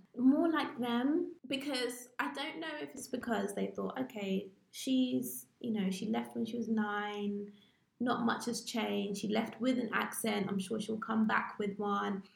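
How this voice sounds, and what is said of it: English accent. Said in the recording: “my accent was so English”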